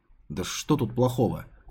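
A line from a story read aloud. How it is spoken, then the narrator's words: Muttered. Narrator (Russian): пробормотал Келл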